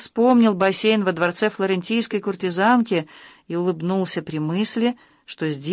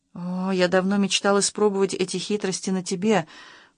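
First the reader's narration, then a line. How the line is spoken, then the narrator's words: Whispered. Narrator (Russian): прошептал Максим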